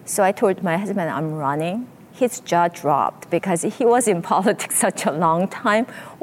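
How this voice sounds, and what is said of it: First-generation immigrant accent. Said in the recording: “With your accent, are you sure you want to do it? ... first generation accent”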